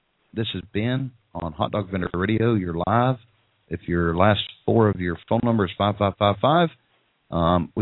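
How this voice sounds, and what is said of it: Redneck accent. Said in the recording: “It's my redneck. ... It's my accent.”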